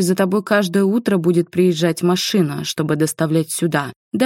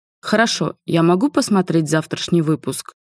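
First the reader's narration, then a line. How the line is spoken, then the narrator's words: Abrupt change of topic. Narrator (Russian): Резко сменил тему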